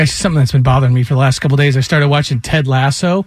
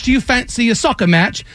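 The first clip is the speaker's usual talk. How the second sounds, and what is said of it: Put-on British accent. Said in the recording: “they were full British”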